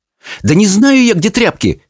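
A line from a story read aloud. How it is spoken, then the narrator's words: Exasperated exclamation. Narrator (Russian): в сердцах воскликнула Чармейн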